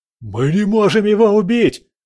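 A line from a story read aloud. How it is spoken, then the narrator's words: Rebel's shout. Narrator (Russian): закричал один из повстанцев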